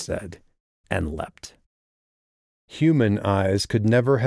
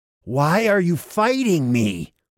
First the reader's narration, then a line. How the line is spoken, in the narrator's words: Walker nearly screamed